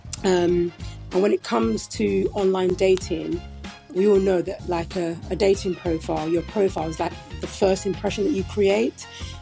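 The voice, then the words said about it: British accent. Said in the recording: “your accent is just the best ... you just have the best voice ... I love British accents”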